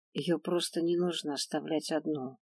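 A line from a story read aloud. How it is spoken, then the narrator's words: Quiet. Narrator (Russian): тихо закончила я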